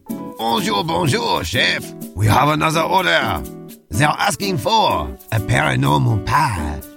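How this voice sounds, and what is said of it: Bad put-on French accent. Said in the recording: “horrible French accent”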